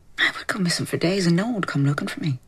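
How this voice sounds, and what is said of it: Put-on accent, slightly Midlands traveller. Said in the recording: “Her accent isn't bad, isn't it? ... It's good at the start, but then it kind of gets a bit weird towards the end. It kind of becomes a bit Midlands travellerish”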